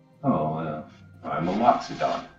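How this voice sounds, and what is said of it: Deep character voice. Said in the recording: “You got a deep voice, man.”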